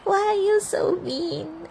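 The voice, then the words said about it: Exaggerated sad voice. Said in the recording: “in your saddest voice”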